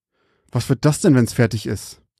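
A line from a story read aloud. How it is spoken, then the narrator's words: Hiss through clenched teeth. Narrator (German): zischte zwischen seinen zusammengepressten Zähnen hindurch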